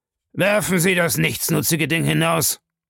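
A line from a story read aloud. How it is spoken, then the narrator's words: Roaring. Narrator (German): brüllte Bellamy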